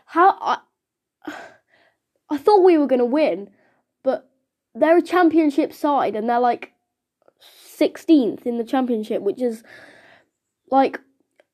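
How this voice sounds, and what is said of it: Nasal, congested voice from cold. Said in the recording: “I actually have a bad cold today, so excuse me if my voice is a bit like nasally.”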